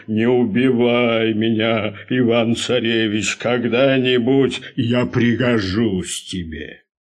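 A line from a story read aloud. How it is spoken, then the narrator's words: Bear speaking in human voice. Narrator (Russian): медведь вдруг и говорит ему человеческим голосом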